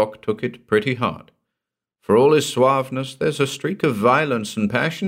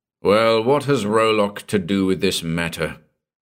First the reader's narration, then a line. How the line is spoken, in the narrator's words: Gordon snarled with the irascibility of frayed nerves